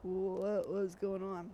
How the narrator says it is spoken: He slurred

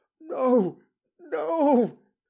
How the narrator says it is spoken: he cried

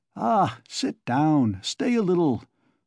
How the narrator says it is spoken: Svidrigaïlov begged

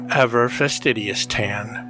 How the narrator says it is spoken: she murmured

